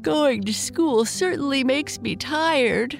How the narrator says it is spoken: Bernice said with a yawn

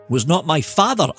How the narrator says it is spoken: cried

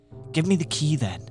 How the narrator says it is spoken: said the other, calmly

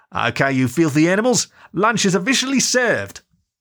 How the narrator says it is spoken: she turned and called out

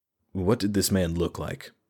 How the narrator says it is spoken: Raedric asked, softly, in the tone he reserved for the most delicate situations

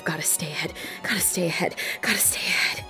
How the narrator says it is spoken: She's muttering to herself

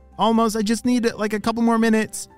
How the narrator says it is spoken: shouted Olly

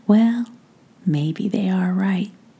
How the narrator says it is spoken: cooed quietly in response

